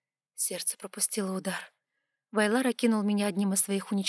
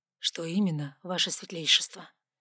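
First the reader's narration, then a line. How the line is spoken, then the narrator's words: Soft but gloomy. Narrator (Russian): мягко, но хмуро уточнил комендант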